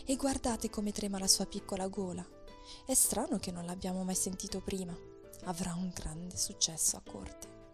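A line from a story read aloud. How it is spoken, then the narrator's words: Whisper. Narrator (Italian): sussurrò il cavaliere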